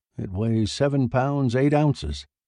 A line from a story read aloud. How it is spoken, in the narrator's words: said